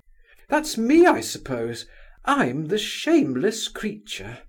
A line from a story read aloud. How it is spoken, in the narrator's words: cried Nastasia Philipovna with amused indifference